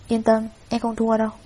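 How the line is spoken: Cold. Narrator (Vietnamese): Đường Vũ lạnh lùng nói

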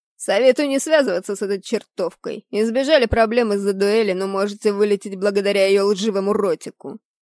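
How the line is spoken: Disgusted tone. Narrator (Russian): произнес Роланд с отвращением

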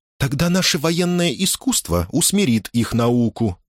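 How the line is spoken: Cheerful. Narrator (Russian): весело произнесла Элизабет

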